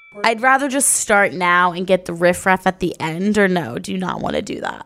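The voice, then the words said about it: Unspecified put-on accent. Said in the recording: “What's this like accent you just put on?”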